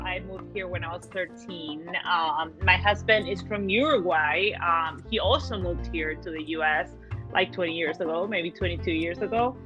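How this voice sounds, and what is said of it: Argentine-accented English. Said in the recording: “you hear an accent because I am from Argentina originally ... my accent kind of like stuck around”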